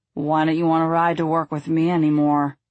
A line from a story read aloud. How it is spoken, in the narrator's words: Thomas slurred